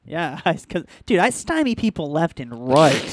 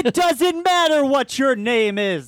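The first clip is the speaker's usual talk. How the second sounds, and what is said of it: Imitates another person's voice. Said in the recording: “you just nailed a fucking Rock impersonation”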